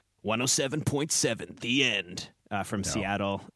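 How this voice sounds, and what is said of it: Radio announcer voice. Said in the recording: “nice radio voice.”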